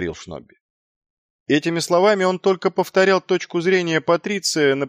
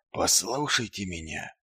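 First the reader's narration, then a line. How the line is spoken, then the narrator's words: Barely audible. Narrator (Russian): едва слышно произнес Ваймс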